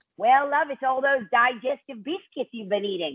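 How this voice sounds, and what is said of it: Poor imitation New Zealand accent. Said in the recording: “that's a terrible New Zealand accent.”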